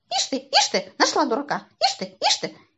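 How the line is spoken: Distrustful squeak. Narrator (Russian): Сидор недоверчиво пропищал

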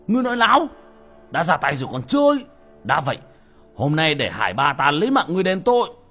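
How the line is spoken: Angry shout. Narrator (Vietnamese): Người đàn ông hít sâu một hơi, quát lên

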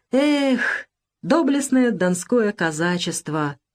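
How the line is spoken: Sudden sigh. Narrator (Russian): вдруг вздохнул Николай Ильич Башлыков

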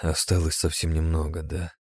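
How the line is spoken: Sad, pensive mutter. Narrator (Russian): пробормотал я вслух с печальной улыбкой, погруженный в собственные размышления

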